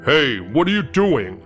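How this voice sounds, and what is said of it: Deep male voice. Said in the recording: “deep voice of a male”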